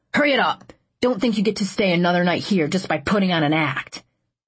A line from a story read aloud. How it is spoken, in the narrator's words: the PSF barked out